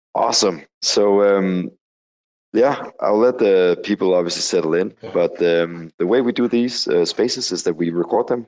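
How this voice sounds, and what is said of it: Slightly deep, under-the-weather voice. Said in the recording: “sitting here in the cold, dark Copenhagen right now with a sore throat. So if my voice is a little bit deep, that's because I'm a little bit under the weather”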